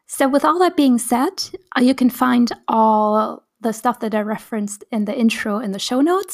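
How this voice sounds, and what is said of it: Slightly raw, hoarse voice. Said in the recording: “My voice is still kind of like a bit raw because I was a bit sick.”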